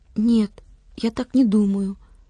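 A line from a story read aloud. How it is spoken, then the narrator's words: Timid voice. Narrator (Russian): робко подал голос Владик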